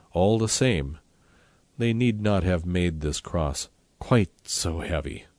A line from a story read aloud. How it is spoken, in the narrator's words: Then he sighed